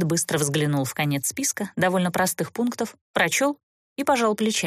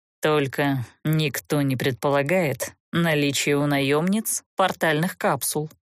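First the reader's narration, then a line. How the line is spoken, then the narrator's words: Gloomy admission. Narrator (Russian): мрачно признался граф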